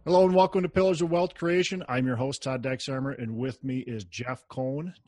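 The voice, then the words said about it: Minnesota accent. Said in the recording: “you had the Minnesota accent on there ... I can't change the Minnesota accent. Much as I try.”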